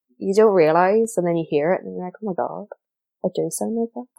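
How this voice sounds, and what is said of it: Northern Irish accent. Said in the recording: “I sound so Northern Irish when I listen to myself back”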